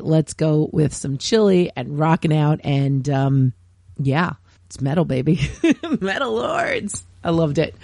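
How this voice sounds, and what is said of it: Slightly hoarse voice. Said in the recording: “you may have noticed that my voice is still a little hoarse”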